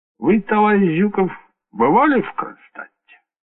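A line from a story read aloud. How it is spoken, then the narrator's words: Calm inquiry. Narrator (Russian): спокойно ответил Сталин и поинтересовался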